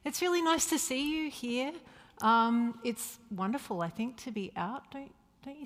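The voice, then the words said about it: Mild Australian accent. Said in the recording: “The strange sound you're hearing is an Australian accent ... it's not as wide as it used to be. Five years in the Netherlands has flattened out my Australian sounds. Uh, but they can still creep in. And the more excited I get, the more Australian I sound.”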